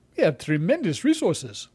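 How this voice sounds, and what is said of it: Put-on African accent. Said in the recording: “How was that for an African accent?”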